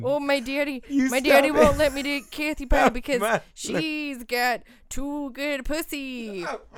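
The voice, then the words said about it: Imitates another person's voice. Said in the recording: “I do a good Bobby D impression. ... that is the best Bob Dylan I have ever heard.”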